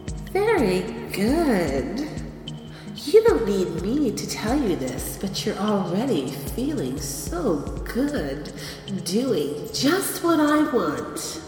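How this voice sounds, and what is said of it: Soft, sweet, sultry voice. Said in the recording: “my sweet and soft and sexy my voice is”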